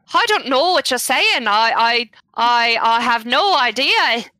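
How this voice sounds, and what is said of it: Put-on Irish accent. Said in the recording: “The accent um, marks you as being from Ireland... by the dialect”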